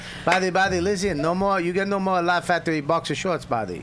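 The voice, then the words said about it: Imitated accent of Jamie Masada. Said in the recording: “Jamie. ... I do a terrible accent, so I couldn't do that.”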